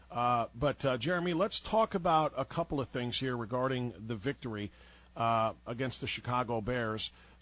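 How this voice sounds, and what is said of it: Sick, strained voice. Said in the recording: “I apologize for my voice. I'm trying to get through this sickness that just settled in over the weekend.”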